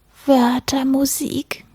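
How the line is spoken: Sighed. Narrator (German): seufzte

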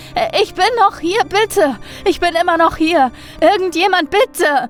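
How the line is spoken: Desperate screaming, whimpering. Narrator (German): schrie er wieder und wieder und wimmerte

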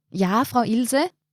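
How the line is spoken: Calling out. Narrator (German): rief Martin

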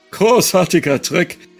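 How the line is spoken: Forced cheerful call. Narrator (German): rief er forciert fröhlich

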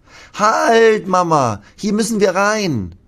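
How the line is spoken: Calling out. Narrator (German): ruft Lasse

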